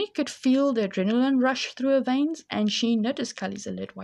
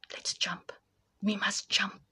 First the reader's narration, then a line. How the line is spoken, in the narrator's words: whispered